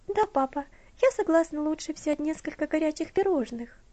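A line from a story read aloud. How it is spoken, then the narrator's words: Timid request. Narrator (Russian): робко попросила Элси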